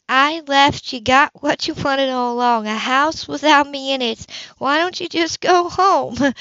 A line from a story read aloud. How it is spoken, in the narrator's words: He sighed